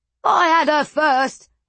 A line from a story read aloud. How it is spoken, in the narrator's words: one shouted